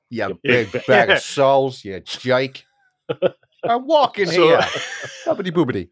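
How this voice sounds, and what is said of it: Put-on New York accent. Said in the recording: “Said in a New York accent.”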